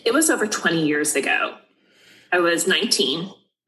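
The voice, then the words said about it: Trembling, emotional voice. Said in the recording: “I can still hear the emotion and the feeling in the way you relive that ... My voice gets a little trembly.”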